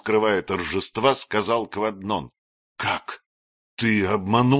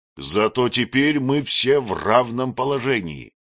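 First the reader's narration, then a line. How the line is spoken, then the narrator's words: Plain. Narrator (Russian): сказал Кваднон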